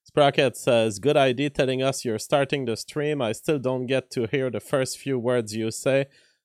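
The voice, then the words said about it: French accent. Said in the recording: “I say vegetable with my French accent.”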